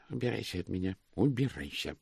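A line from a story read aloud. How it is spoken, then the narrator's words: Whisper. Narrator (Russian): шептал он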